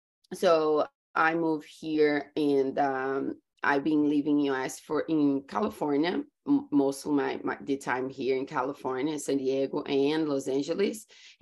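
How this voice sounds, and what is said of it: Brazilian-accented English. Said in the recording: “The accent. ... is Brazilian. I grew up in Brazil”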